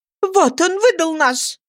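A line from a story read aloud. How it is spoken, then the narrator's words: Indignant exclamation. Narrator (Russian): воскликнула она с негодованием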